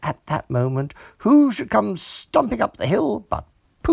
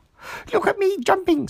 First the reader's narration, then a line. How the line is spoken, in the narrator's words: squeaked Roo as he fell into another mouse hole